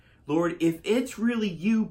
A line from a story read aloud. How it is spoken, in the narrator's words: Peter answered